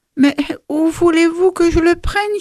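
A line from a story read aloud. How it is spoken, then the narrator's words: Cunning peasant's whine. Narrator (French): gémit le rusé paysan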